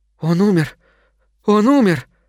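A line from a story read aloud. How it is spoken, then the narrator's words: Breathless child, forced out. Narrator (Russian): с трудом переводя дух, выдавил из себя малец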